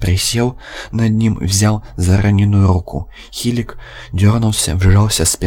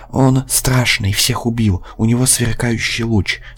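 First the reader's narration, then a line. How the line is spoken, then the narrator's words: Weakening mutter, Martian. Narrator (Russian): снова забормотал марсианин, слабее на глазах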